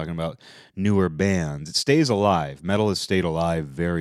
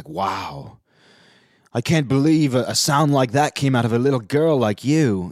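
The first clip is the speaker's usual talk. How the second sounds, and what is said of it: Deliberately bad put-on accent. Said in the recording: “Bad accent, but it might as well be that bad.”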